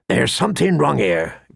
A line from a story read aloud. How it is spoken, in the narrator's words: Garrod muttered